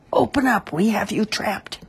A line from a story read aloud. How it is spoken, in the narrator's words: shouted